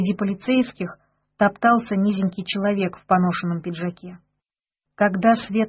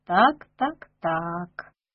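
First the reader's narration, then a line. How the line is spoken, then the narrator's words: Nasal voice. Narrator (Russian): проговорил он гундосым голосом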